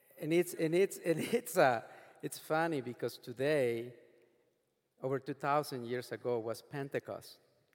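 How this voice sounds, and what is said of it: Speaks with a noticeable accent. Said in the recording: “as you can hear, one thing that I will never get rid of is my accent”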